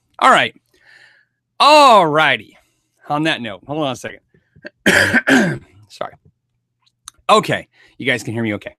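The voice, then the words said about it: Hoarse voice. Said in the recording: “My voice was just a little still hoarse.”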